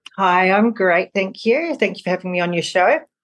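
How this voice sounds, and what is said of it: New Zealand accent, slight Australian twang. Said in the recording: “with that accent ... I'm originally from New Zealand. But there's a bit of an Aussie twang in there”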